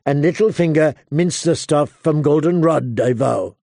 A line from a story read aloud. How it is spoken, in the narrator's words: Jamie corrected dryly